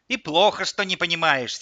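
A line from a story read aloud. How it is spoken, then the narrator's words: Angry old woman. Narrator (Russian): сердито сказала бабушка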